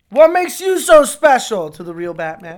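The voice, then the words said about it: Poor imitation of a movie character. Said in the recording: “That's a fucking terrible impression of the guy in hockey pads”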